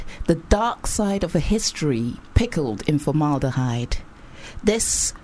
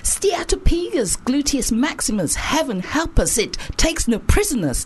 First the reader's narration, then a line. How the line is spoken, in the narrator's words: hollered